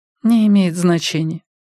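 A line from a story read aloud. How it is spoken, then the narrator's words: Tired. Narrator (Russian): устало сказала Симона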